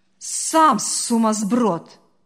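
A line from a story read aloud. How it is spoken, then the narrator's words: Barked. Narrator (Russian): рявкнула та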